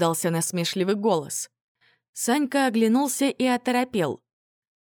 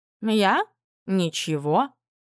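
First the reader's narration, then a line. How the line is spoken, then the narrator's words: Plain. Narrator (Russian): ответил баюн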